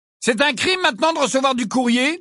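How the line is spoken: Loud question. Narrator (French): demanda Fred d'une voix forte

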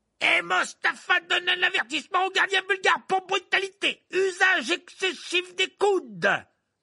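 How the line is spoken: Announced over roaring crowd. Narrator (French): annonça Verplay aux spectateurs qui hurlaient de toutes parts

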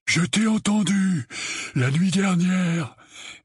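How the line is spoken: Breathless answer. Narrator (French): répondit Dudley, la voix haletante

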